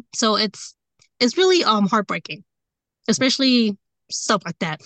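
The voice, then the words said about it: Emotional, choked-up voice. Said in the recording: “Sorry, I'm getting a little emotional.”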